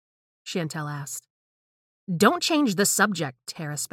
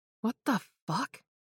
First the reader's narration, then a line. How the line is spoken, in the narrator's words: Chantel gasped